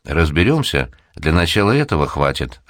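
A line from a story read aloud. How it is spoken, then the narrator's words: Plain. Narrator (Russian): ответил Упырь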